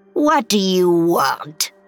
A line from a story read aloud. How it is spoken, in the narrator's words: she snarled